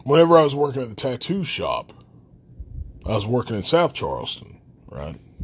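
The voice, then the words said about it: Regional accent from Logan. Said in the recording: “there was a problem with me being from Logan... Everything was fine until they heard my accent. Once they heard my accent”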